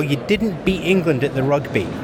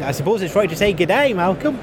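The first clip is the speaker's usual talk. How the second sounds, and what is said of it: Poor put-on Australian accent. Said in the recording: “not a very good accent. ... It's not a very good accent.”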